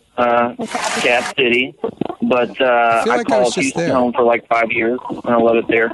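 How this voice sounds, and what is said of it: Thick Louisiana accent. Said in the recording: “I am from Louisiana. Can you tell? Do I have like a sick accent? ... You got kind of a sick accent. Thick.”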